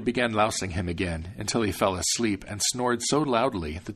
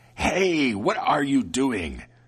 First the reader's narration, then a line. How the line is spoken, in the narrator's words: the devil screamed angrily